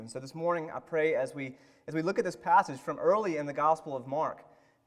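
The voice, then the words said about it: Southern US accent. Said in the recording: “As you can tell from my accent, ... It's clear I am from the South.”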